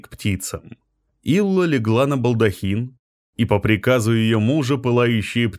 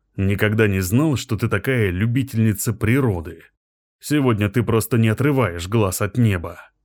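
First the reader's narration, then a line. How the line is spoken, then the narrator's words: Plain. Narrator (Russian): сказал он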